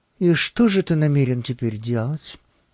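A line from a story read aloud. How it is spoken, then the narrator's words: Unexpectedly calm question. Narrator (Russian): неожиданно спокойным голосом спросила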